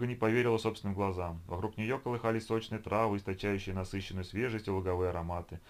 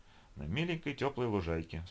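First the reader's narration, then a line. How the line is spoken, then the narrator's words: Calm explanation. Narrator (Russian): спокойно объяснил Лиша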